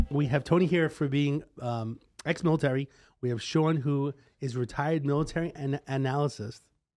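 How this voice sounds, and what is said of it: New York accent. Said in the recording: “I'm saying it wrong with my accent. ... The New York accent.”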